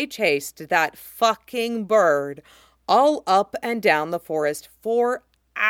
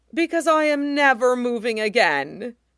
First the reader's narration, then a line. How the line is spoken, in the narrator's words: Usopp moans deliriously into the grass